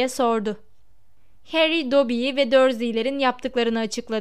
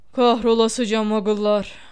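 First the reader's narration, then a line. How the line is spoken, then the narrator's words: Grumbling. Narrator (Turkish): diye homurdandı Hagrid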